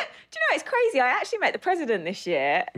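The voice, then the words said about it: Put-on British accent. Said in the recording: “she needs a British accent, so she's in character still. She's she grew up in Jersey”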